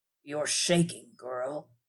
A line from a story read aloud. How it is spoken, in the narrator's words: he said, his voice rasping